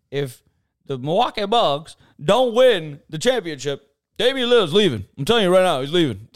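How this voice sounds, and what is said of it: Imitates another person's voice. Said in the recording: “I can do what Stephen A. Smith does ... This is a terrible impersonation.”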